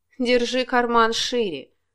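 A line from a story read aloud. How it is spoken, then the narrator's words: Scornful snort. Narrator (Russian): фыркнула Елена Матвеевна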